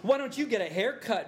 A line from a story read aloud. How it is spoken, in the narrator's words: Velma shouted back